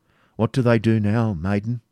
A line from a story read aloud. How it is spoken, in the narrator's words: said Ivanhoe